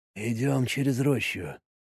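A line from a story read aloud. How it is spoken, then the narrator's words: Quiet, almost whispered. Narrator (Russian): сказал Марик тихо, почти шепотом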